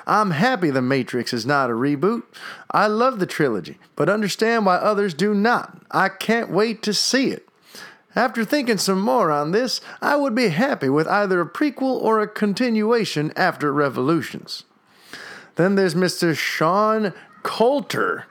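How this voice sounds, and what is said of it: Generic put-on Southern US accent. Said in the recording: “I can't really do a Texas accent. I don't even know if I'm doing it right. This is kind of just a generic Southern accent.”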